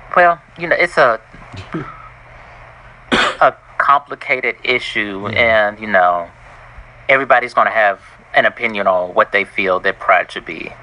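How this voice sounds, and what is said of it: Country Southern US accent. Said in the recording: “You have a country accent. ... You sound hospitable.”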